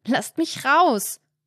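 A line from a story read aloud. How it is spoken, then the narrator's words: Shouting. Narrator (German): schreit er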